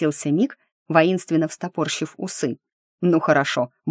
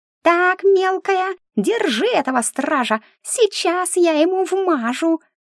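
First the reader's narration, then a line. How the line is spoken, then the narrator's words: Menacing squeak. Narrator (Russian): грозно пропищал Мик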